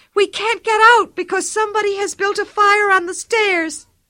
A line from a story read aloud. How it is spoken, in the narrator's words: cried the older boy